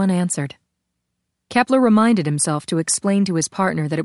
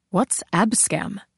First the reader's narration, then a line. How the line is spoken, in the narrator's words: Sarani asked